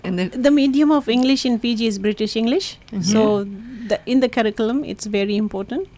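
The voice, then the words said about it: Slight English-sounding accent. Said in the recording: “You have a bit of an English accent. Can you hear it in his voice? There's a bit of an English. You almost talk with a little bit of an English accent.”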